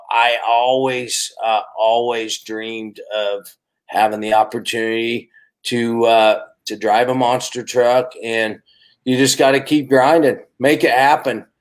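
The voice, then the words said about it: Regional accent from South Murray. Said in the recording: “here's a kid like myself that grew up in South Murray. That's where my accent comes from.”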